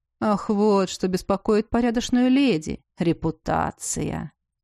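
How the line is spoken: Soft laughing. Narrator (Russian): тихо рассмеялся Элорик

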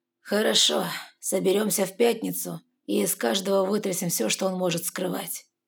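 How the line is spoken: Calm, weary father admitting. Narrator (Russian): Отец успокоился и устало признал

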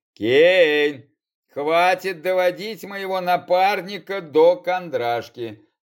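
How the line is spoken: Grumbling. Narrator (Russian): заворчал Парадин

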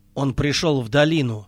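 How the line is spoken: Plain. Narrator (Russian): сказал Нэнни

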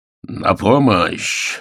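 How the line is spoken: Sharp bark. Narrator (Russian): рявкнул он

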